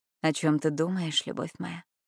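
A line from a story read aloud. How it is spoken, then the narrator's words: Tender, close to ear. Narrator (Russian): ласково произнес возле самого ушка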